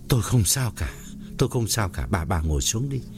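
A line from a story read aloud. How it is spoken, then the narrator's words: Trembling voice. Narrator (Vietnamese): run run bảo vợ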